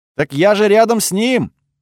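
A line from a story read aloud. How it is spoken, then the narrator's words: Yelled in reply. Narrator (Russian): заорала она в ответ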